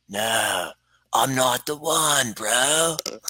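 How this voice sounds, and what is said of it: Keanu Reeves impression. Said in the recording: “my Keanu Reeves impression ... that's what I hear whenever Keanu Reeves talks”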